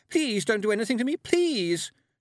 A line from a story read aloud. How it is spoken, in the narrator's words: she cried